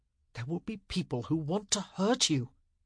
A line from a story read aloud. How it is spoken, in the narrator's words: he said urgently